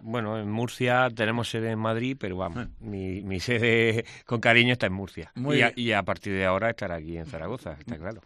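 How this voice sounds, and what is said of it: Murcian Spanish accent. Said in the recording (Spanish): “Murciano, soy murciano. Te lo iba a decir por el acento”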